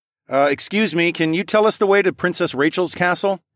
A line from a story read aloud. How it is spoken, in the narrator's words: I called out